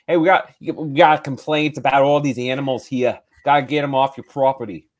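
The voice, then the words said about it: Weak put-on New York accent. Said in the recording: “speaks in a New York accent ... I'm not doing a good accent”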